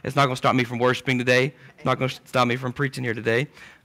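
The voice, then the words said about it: Hoarse, failing voice. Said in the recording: “excuse my voice. It's starting to go out. So please excuse the sound of it”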